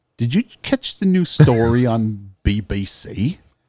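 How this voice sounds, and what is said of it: Poor put-on British accent. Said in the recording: “That's how they say it over there... I butchered your accent. I am awful”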